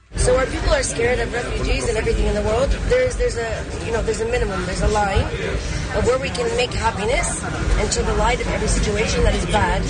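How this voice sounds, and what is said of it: Strange mixed foreign-sounding accent. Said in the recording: “she now speaks in an accent. A new accent. An accent we've never heard before from anyone, ever, from any country... It's not British at all... Nor is it Greek. Nor is it Russian... Nor is it French. And yet it's all of those.”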